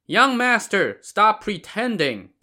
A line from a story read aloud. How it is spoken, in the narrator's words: shouted back